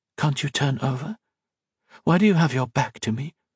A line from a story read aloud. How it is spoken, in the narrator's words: Colette whispered